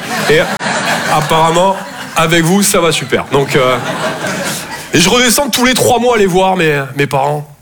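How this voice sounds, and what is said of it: Southern French Toulouse accent. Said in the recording (French): “Je viens de Toulouse, à la base. Ouais, ça s'entend un peu, ouais. Bah, mon accent”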